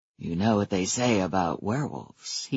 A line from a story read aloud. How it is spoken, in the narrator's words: he told me gravely